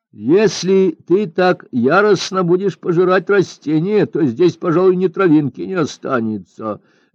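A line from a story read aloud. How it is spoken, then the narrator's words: Laughing. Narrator (Russian): засмеялся Лин Джиян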